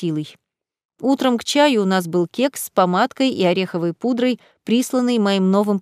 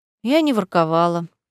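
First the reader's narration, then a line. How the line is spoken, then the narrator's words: Sighing. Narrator (Russian): вздохнула Марселла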